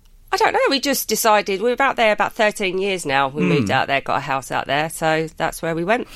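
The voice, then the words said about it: English London accent. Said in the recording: “I love the English accent straight away ... London brogue brilliantly”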